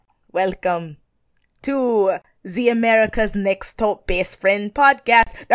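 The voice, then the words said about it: Mix of several put-on accents. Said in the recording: “That was just a mix of just like eight different accents right there.”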